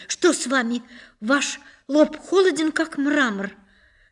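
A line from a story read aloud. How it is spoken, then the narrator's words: Alarmed cry. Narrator (Russian): она вскрикнула с тревогой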